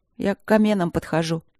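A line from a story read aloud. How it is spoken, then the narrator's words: Sad. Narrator (Russian): грустно сообщила Алинка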